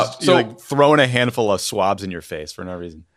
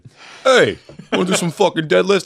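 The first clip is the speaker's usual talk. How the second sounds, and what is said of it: Imitates another person's voice. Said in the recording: “do a Cuomo impression... Oh, sorry, wrong Cuomo”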